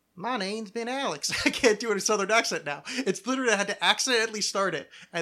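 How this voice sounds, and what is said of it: Usual voice. Nothing is said of it.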